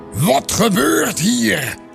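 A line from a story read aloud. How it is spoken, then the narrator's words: Angry roar. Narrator (Dutch): bulderde hij boos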